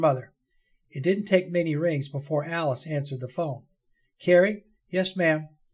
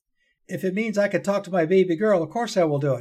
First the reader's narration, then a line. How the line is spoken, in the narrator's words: Alice exclaimed